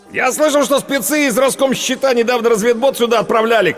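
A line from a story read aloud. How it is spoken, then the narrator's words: Shout. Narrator (Russian): крикнул Ренат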